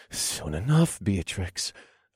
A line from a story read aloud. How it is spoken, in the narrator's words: panted